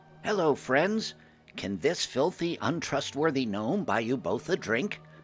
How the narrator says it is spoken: I called out in a friendly voice

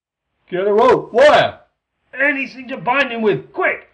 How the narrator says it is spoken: yelled Klee

